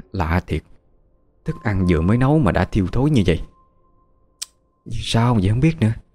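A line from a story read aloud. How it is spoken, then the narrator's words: Mother's grumbling mutter. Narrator (Vietnamese): mẹ vừa lầm bầm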